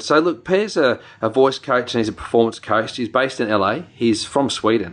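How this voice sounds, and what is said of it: New Zealand accent. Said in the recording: “my Kiwi accent coming out there”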